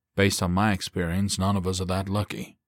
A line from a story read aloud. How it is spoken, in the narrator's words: the corporal replied dryly